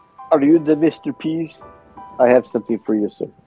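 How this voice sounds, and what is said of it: Put-on Greek accent. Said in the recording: “my impersonation of a Greek guy”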